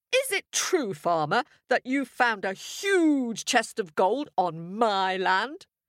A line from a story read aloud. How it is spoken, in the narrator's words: He bellowed